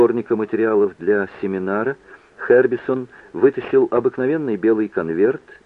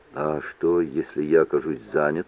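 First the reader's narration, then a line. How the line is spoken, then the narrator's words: Quiet question. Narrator (Russian): тихо спросил Митч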